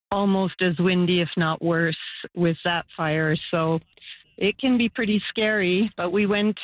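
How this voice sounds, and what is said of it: Usual voice. Nothing is said of it.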